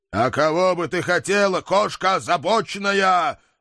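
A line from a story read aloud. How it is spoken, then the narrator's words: Growling. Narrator (Russian): рыкнул я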